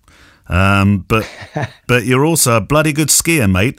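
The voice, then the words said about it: Poor put-on Australian accent. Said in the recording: “That was a terrible Australian accent, I apologise.”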